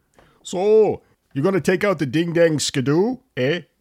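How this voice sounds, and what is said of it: Put-on French-Canadian Maine accent. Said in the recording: “your brother-in-law, can do our Canadian Frenchie-type words ... In the northern part of the state of Maine, that's pretty much South Canada ... there are a lot of French-speaking citizens there, and I love their accent ... I love the accent.”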